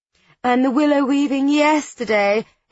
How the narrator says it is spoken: exclaims Cleo, as though she's not remotely interested in Susie's breakfast

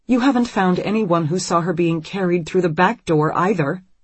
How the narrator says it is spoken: Anne points out sharply

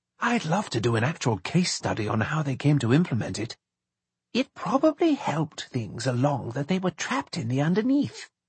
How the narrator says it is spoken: Charles whispered back

